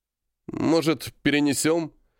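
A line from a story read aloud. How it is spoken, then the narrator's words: Hesitant suggestion. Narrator (Russian): неуверенно предложил Денис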